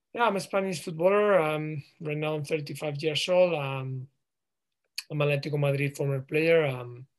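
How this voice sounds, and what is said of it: Spanish accent in English. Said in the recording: “a Spanish with my accent”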